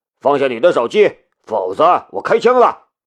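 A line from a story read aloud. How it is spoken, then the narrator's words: Shouted in Korean. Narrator (Chinese): 一个警察用韩语吼道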